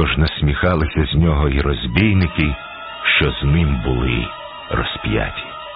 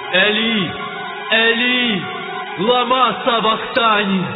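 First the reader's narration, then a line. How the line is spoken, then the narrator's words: Loud cry. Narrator (Ukrainian): скрикнув Ісус гучним голосом, кажучи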